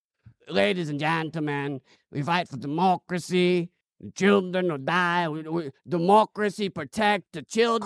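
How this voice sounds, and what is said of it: Zelensky impression with his accent. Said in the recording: “Vladimir Zelensky ... that accent”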